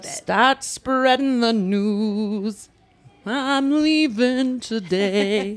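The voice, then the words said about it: Singing impression of another person. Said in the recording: “that's my David Sedaris singing impression”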